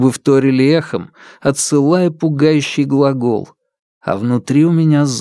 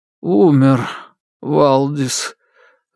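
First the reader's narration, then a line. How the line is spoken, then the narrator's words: Forced out. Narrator (Russian): выдавил Сергей Евгеньевич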